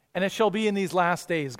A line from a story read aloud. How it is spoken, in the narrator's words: God says